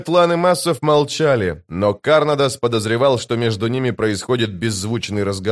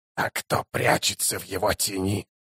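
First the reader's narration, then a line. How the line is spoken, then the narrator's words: Hoarse rasp. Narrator (Russian): прохрипел заклинатель по имени Бек-О-Хан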